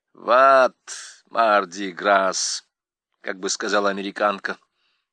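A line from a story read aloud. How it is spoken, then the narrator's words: Low, husky, emotional voice. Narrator (Russian): ответила Сандра низким, хрипловатым от волнения голосом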